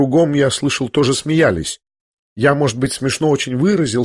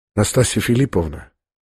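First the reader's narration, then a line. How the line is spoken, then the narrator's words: Quiet, compassionate. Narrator (Russian): сказал князь тихо и как бы с состраданием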